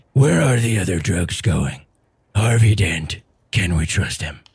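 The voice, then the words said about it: Gravelly Batman impression voice. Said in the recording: “A Care Bear with the Christian Bale Batman voice ... that was my impression of Pete Holmes as Batman from College Humor”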